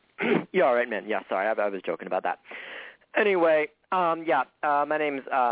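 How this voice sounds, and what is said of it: Usual voice. Nothing is said of it.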